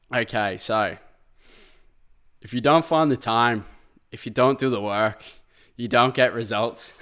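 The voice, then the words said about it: Arnold Schwarzenegger impression. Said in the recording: “I was gonna try impersonate ... it's by Arnold Schwarzenegger ... He's trying to do an impersonation.”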